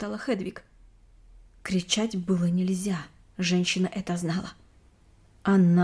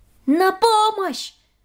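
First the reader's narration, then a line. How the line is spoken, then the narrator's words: Scream for help. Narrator (Russian): закричала Хедвиг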